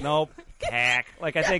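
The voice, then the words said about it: Put-on Boston accent. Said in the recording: “Why are you saying that in a Boston accent? ... a Chicago accent, too.”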